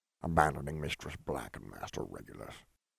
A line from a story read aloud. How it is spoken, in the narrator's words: he muttered